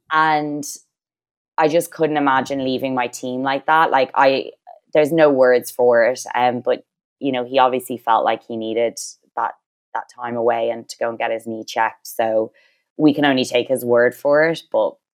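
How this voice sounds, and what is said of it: Dublin Irish accent. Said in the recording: “She's from Dublin, y'all. That's why she has that beautiful accent.”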